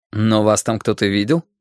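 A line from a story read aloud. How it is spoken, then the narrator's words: Plain. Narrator (Russian): спросил Мейсон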